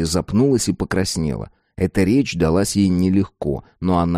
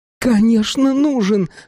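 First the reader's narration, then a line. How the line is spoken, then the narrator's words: Fervent exclamation. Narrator (Russian): с жаром воскликнула Роза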